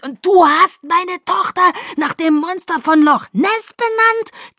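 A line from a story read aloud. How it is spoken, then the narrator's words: Shrieked. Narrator (German): kreischte ich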